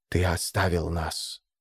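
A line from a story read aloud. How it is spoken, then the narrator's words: Phantom's whisper. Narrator (Russian): шепнул фантом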